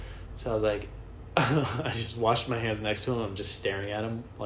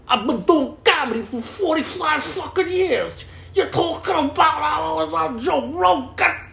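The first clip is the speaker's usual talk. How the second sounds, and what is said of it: Imitates another person's voice. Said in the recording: “Incredible press impersonation”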